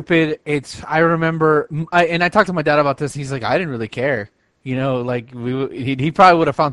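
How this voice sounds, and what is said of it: Usual voice. Nothing is said of it.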